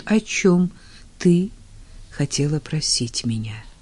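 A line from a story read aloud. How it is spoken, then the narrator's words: Quiet inquiry. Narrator (Russian): тихо осведомился он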